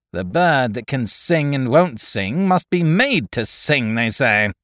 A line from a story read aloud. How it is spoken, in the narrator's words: grumbled Tackleton